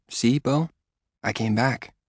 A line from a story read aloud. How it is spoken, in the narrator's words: whisper